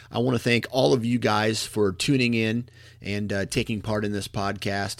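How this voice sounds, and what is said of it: Slightly raspy, hoarse voice. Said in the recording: “The throat is getting a little raspy”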